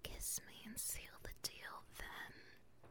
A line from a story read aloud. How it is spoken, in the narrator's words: she whispers in his ear